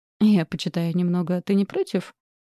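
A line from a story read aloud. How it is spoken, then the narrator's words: Laughing. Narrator (Russian): Смеясь, обратилась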